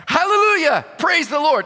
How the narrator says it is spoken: he yelled out

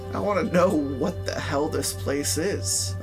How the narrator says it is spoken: I sputtered

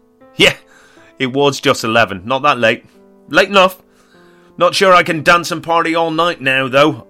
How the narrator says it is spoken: half laughed

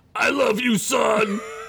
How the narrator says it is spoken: A single tear slid down his furry face and he yelled back to Jeremy

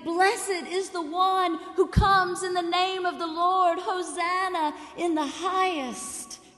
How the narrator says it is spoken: would we be shouting

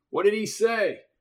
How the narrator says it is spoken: yelled Garrison

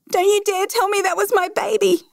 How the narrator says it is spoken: screamed

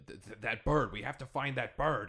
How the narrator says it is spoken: he shouts out something, and he says

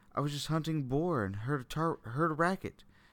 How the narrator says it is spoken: he pleaded, crippled with fear

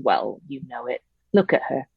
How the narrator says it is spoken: My uncle lowered his voice a little and growled

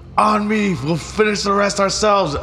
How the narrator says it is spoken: yell

